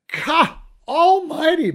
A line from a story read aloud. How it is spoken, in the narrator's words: Brendan screamed from behind his hand in perfect Gaelic